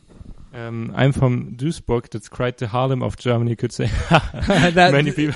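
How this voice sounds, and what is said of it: Heavy German accent. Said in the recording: “your German accent is still a little heavy ... every once in a while, you'll have you know, something real thick”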